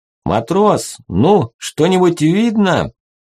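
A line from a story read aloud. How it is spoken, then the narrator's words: Shouting over noise. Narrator (Russian): Перекрикивая шум вентиляторов, прокричал князь Трубецкой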